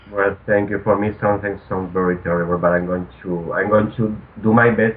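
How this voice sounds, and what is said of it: Non-native English accent. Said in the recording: “I absolutely love your accent. You sound so romantique ... I apologize for this accent and probably some mistakes”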